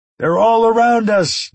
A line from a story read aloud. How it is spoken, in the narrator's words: someone shouted